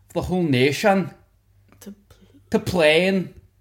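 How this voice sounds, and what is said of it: Attempted Scottish accent drifting Scouse. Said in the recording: “My Scottish accent went, is just people yelling ... it went kind of scouse at the end there”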